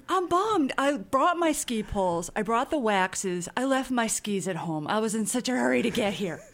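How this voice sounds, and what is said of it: Northern Wisconsin accent. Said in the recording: “tell from your voice, your accent ... you grew up not in the South, but in a place where snow happened more frequently ... northern Wisconsin”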